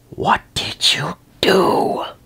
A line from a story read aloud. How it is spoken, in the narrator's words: Discord whispers